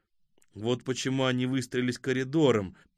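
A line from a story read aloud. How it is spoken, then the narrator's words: Muttered. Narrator (Russian): пробормотал Хасид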